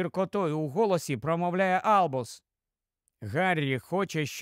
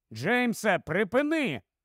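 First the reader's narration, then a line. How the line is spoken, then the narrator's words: Stern shout. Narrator (Ukrainian): суворо кричить Гаррі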